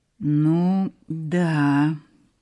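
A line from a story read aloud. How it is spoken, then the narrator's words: Drawn out. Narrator (Russian): протянул Сенька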